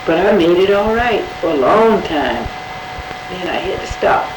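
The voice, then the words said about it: Hoarse voice. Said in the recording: “Hoarse. ... I've been that way now, this time. ... My cold would be right here in the throat.”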